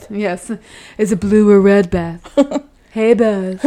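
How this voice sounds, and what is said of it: Keanu Reeves impression. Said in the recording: “do your Keanu voice. ... Everything sounds the same in the Keanu Reeves voice.”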